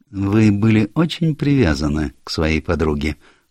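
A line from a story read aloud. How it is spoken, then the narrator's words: Gentle question. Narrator (Russian): ласково спросил Пуаро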